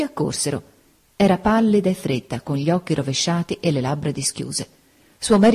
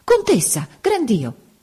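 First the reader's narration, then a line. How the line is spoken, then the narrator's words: Sudden exclamation. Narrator (Italian): A un tratto Don Cono esclamò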